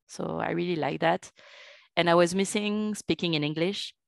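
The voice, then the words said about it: Strong French accent in English. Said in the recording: “I have a very strong French accent.”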